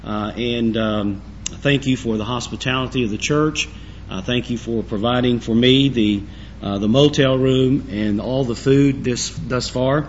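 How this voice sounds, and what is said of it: Raspy, hoarse voice. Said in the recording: “you'll have to forgive me for my voice. It is a little raspy”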